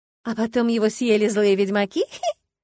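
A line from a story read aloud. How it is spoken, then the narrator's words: Giggling. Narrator (Russian): хихикнула я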